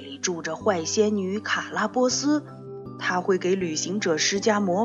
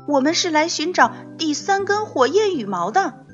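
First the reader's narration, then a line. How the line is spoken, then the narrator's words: Loud. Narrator (Chinese): 玛蒂娜大声说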